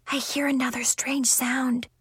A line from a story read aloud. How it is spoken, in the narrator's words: she whispered